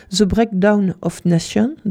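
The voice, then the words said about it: Reads English title in English accent. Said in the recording (French): “avec l'accent, avec mon fabuleux accent anglais”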